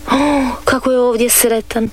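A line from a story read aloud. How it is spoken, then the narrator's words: Sighing. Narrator (Croatian): uzdiše Dorica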